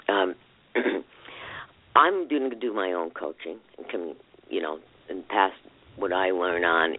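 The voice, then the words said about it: Strained voice, losing his voice. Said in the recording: “I'm losing my voice now.”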